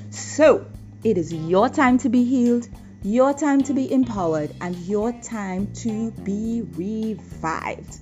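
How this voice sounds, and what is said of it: Excited, energetic speaking voice. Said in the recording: “hear the excitement in my voice. ... I'm sure you are hearing my excitement”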